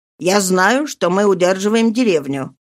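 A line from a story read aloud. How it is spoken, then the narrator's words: Plain. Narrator (Russian): ответил капитан Арно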